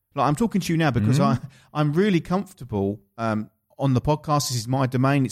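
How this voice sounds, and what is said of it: Essex English accent. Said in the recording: “My Essex accent ... the Essex accent is taking the mickey out of”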